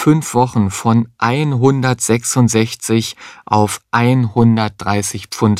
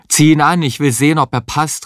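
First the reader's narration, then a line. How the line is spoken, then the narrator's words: Calling with full mouth. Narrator (German): rief Heinz mit vollem Mund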